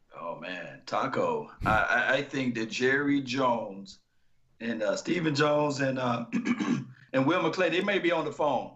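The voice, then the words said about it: Strained, slightly hoarse voice. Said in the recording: “I'm losing my voice a little bit.”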